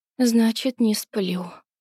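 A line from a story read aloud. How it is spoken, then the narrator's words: Muttered. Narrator (Russian): пробормотала она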